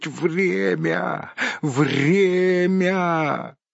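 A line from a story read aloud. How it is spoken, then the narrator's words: Hoarse wheeze. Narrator (Russian): прохрипеть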